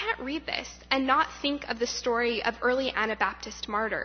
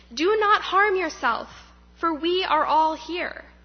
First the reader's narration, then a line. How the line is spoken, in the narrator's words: Paul shouted in a loud voice